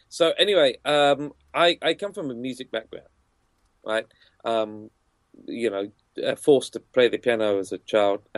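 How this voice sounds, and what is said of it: British accent. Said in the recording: “I've got this cool British accent”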